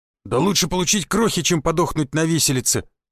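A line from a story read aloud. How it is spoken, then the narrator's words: Grumble. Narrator (Russian): буркнул амбал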